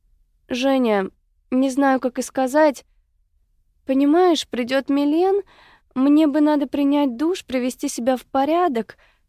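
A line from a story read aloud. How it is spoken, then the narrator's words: Timid, deeply embarrassed. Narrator (Russian): робко начала Мика в страшном смущении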